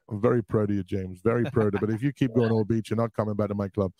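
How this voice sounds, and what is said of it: Imitates another person's voice. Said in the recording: “my Brendan Rodgers impression ... he sounds too real”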